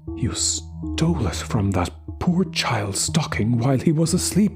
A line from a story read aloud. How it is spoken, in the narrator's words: she said, her voice quivering with indignation